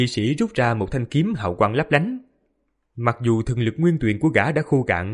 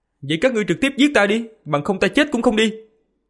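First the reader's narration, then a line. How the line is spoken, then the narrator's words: Loud angry shout. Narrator (Vietnamese): Một tên kỵ sĩ bên cạnh thấy như vậy, lớn tiếng quát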